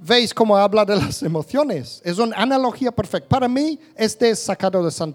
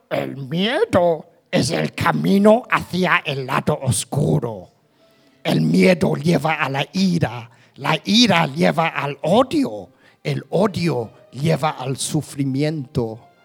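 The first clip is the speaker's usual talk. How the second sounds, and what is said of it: Imitates Yoda's character voice. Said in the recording (Spanish): “Voy a intentar poner voz de Yoda en español.”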